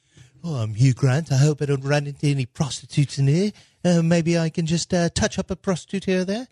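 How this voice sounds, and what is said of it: Hugh Grant accent impression. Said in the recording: “Now do Hugh Grant... you're imitating someone's accent”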